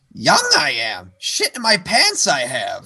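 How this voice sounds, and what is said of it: Poor Yoda character voice. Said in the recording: “terrible Yoda impersonation”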